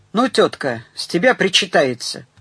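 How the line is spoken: Rather rude. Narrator (Russian): довольно грубо сказал

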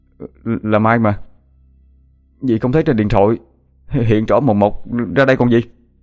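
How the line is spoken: Stammering. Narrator (Vietnamese): Hoàng lắp bắp

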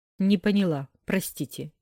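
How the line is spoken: Irrepressible snort. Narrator (Russian): фыркнула, не удержавшись

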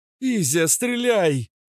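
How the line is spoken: Shout. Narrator (Russian): крикнула Кобра

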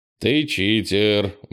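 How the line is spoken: Tired grumble. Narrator (Russian): буркнул, устало

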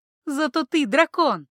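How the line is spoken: Cheerful laughter. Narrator (Russian): Знахарка весело рассмеялась

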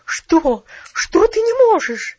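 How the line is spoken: Incredulous exclamation. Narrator (Russian): воскликнула миссис Керю, как будто сомневаясь в том, что ее уши слышат правильно

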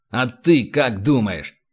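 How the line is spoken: Snapped retort. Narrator (Russian): огрызнулся Рэндалл

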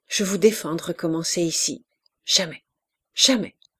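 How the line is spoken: Harsh. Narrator (French): lui dire durement

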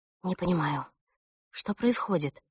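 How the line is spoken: Whisper, mother. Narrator (Russian): шептала мама

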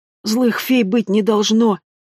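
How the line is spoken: Hoarse coughing. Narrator (Russian): хрипло кашлял Эм

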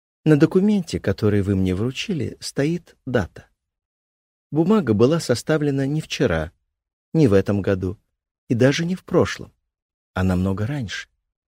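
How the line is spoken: Calm speech. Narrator (Russian): спокойно произнесла

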